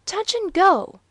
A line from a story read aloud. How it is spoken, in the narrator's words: cried Waldo, with a vast inhalation